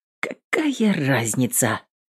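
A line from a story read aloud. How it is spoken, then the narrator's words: Quiet, to herself. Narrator (Russian): тихо сказала сама себе Эвелин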